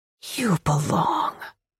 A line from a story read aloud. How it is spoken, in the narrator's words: she murmurs